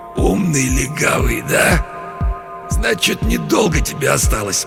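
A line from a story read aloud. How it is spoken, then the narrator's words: Hoarse, injured man. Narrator (Russian): Человек с разбитым лицом прохрипел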